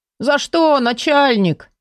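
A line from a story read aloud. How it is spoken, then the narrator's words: Offended drawl. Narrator (Russian): обиженно потянул он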